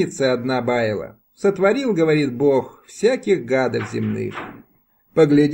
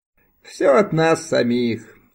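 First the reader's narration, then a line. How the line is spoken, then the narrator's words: Speaking after laughing. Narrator (Russian): сказала, отсмеявшись, Оксана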